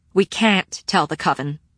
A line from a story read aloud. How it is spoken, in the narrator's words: Sarah said firmly